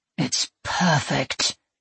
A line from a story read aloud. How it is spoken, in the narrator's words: Sir Griffins breathed